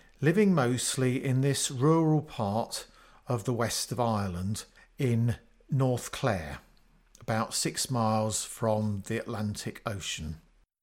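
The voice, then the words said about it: Obvious English accent. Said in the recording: “As you can hear, I'm a Brit with an obvious English accent”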